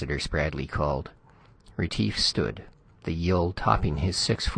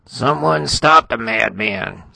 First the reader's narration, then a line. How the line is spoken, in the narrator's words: Spradley howled